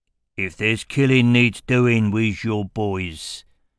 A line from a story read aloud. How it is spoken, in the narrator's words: growled Aram